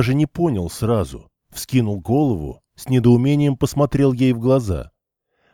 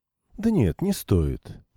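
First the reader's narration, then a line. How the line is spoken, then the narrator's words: Calm, almost indifferent. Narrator (Russian): неожиданно для него спокойно и почти безразлично ответила Ирина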